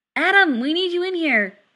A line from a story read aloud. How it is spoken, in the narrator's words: someone yells